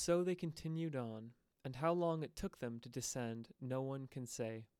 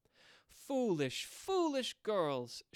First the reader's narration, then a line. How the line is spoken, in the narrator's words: she cried